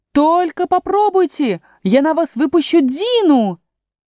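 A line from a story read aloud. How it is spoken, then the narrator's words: Screaming with full force. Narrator (Russian): изо всех сил закричала Алиса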